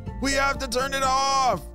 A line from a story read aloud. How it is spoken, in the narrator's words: Maddie yelled